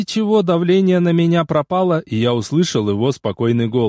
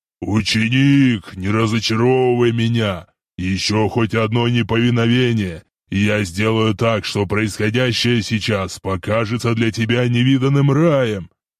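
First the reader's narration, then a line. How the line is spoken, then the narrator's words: Angry growl. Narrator (Russian): Эол гневно прорычал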